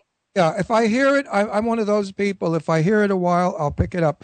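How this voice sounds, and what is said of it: Heavy Brooklyn accent. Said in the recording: “I have a very heavy Brooklyn accent”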